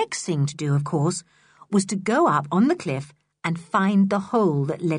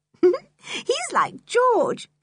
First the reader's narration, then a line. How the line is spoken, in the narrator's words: said Anne with a laugh